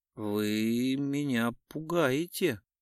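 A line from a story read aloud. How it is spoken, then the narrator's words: Low-voiced reply. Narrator (Russian): низким голосом ответила Самойлова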